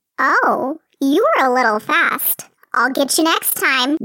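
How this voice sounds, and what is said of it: High-pitched character voice. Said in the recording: “in his high voice”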